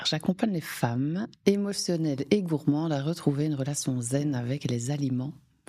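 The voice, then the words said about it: Belgian Liège regional accent. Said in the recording (French): “un petit accent un peu exotique ... Région liégeoise”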